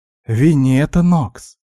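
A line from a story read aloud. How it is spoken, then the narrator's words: Exclamation. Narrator (Russian): воскликнула Леся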